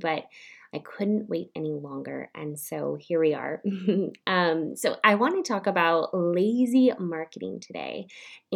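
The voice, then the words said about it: Raspy, sick-sounding voice. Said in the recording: “tell in my voice, but I have been sick ... so my voice wasn't so raspy”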